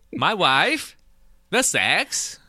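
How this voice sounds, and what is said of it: Borat impression. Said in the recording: “I was trying to do my best Borat impersonation.”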